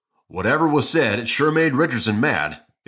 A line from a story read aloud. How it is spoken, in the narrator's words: exclaimed Duffy